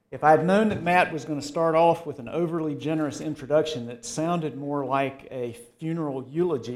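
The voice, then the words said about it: Southern American accent. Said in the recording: “I never thought I even had a Southern accent”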